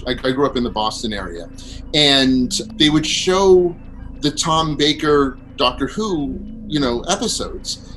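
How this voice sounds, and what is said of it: Strong American East Coast accent. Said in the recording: “I grew up on the East Coast of the United States. As you can tell, I have this outrageous accent”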